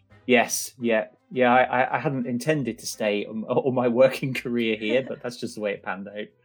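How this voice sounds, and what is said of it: Broad southwest English country accent. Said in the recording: “it's a very sort of country accent, I would say. People in the southwest have quite a broad accent.”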